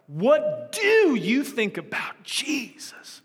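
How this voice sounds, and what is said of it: Drawn-out impression of a pastor. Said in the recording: “he says it a lot cooler than I'm saying it. He draws it out. ... I'm not even sure that was a good impression”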